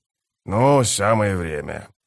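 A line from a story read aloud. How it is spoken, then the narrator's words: Grumbling. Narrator (Russian): проворчал он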